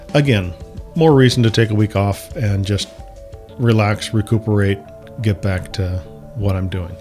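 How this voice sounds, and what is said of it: Strained, froggy voice. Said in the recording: “hear it in my voice. My voice is a little strained ... It has been messing with my throat, something fierce ... I got a frog in my throat.”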